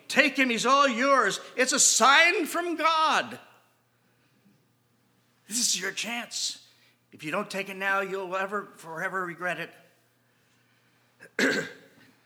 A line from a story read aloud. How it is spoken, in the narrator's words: practically shouting